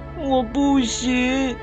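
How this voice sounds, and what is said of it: Quiet sobbing voice. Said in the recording (Chinese): “鸭宝贝小声抽泣起来”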